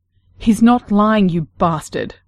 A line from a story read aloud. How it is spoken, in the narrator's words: Clara snapped